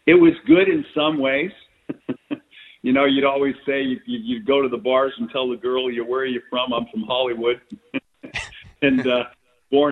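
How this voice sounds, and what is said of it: Southern Californian American accent. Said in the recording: “that Southern Californian accent of yours ... you had the accent ... I was this accent”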